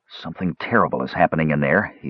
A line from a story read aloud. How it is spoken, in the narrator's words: said in a low voice